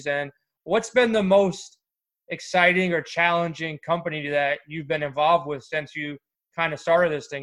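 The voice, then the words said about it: New York accent. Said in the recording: “that New York accent”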